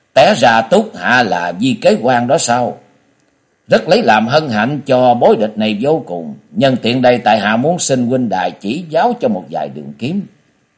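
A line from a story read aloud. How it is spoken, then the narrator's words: Disdainful smiling. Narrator (Vietnamese): Bối Địch có vẻ coi thường rồi mỉm cười nói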